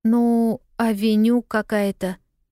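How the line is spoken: Dejected voice. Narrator (Russian): упавшим голосом ответила Полианна

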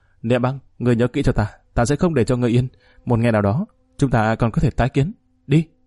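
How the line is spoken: Harsh, bitter. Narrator (Vietnamese): Lạc Nhu gay gắt nói

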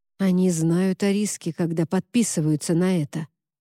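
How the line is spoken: Quiet. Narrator (Russian): тихо ответил Поль

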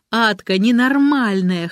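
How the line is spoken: Laughing loudly. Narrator (Russian): хохотала Маша

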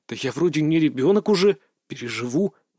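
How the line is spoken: Grumble. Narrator (Russian): буркнул я

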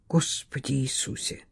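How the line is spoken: Whispered. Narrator (Russian): прошептал Аргайл

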